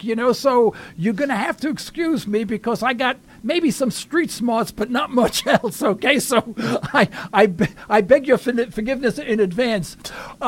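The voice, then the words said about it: New York accent. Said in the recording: “I love that New York accent.”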